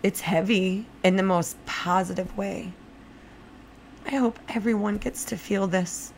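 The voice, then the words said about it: Teary, emotional voice. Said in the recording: “I'm only getting a little teary-eyed right now”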